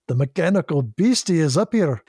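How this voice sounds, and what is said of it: Good impression of Scotty character. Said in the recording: “That was a good Scotty impression. ... I'll sound just like James Doohan. ... he did not have a Scottish accent.”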